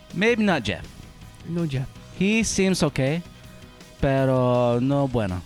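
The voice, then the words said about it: Put-on Mexican Spanish accent. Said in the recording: “read this in a Mexican accent. Hispanic, sorry.”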